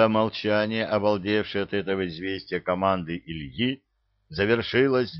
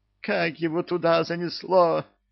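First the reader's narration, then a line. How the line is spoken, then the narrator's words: Witch exclaiming. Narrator (Russian): воскликнула ведьма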